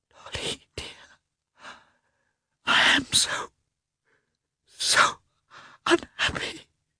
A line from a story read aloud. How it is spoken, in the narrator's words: she whispered guiltily